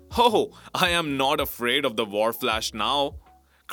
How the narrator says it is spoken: cried Harald

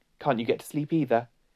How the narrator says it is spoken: said Susan

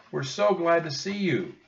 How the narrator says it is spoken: Annie cried

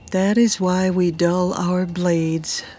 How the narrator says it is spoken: Fiona sighed

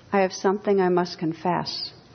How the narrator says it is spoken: said weakly

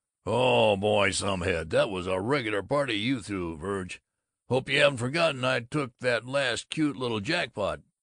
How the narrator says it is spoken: Babbitt bellowed

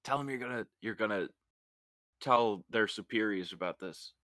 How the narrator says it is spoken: I'm gonna whisper in Lewis's ear and say

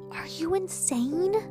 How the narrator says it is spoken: she shouted in as high a whisper as she could afford

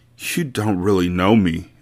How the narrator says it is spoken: Mia Moore moaned

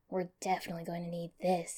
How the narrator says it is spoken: muttered

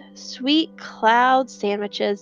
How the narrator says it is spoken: Deli sighed

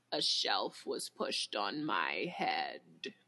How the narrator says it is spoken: He groans

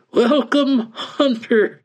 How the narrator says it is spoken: the strange man said and chuckled

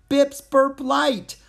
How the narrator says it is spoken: I laughed

